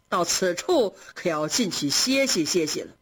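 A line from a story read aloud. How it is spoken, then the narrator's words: Laughing. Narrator (Chinese): 贾政笑着说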